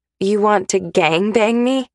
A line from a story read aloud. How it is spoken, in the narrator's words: I laugh